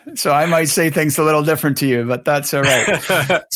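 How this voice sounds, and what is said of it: Hybrid Canadian-British accent. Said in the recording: “I have a hybrid accent. I'm from Canada, but I live in the UK.”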